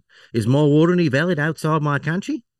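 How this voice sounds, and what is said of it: Attempted Australian accent. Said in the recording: “which accent do you want me to go for here? ... Go Australian. ... What fucking part of Australia was that, mate?”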